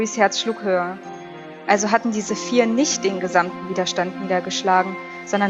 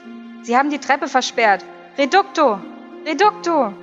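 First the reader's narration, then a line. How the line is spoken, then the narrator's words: Calling voice. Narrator (German): eine Stimme rief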